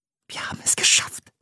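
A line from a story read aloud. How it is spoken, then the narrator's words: Whispered. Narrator (German): flüsterte sie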